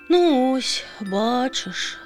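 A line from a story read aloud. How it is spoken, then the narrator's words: Bird sighing again. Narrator (Ukrainian): знову зітхнула пташка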